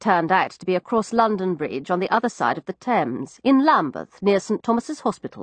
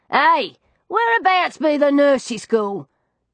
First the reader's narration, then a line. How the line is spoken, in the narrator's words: I heard my cabbie yell to another one